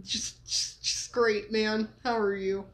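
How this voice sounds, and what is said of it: Happy stuttering speech. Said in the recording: “you're so happy you're stuttering”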